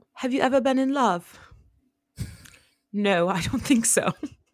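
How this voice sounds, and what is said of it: Put-on British accent. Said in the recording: “Your British accent's amazing.”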